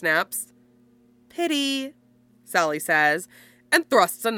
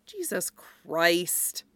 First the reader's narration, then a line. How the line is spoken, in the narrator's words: Styles mutters